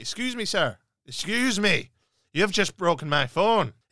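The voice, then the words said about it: Attempted Irish accent, self-described as poor. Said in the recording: “he was Irish, and forgive me because I cannot do the Irish accent.”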